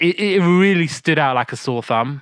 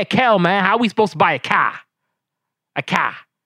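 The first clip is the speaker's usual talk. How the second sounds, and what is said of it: Thick Midwest Chicago accent. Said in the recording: “the accent ... I don't know if that's a Chicago thing ... It was very thick, maybe Midwest Chicago accent”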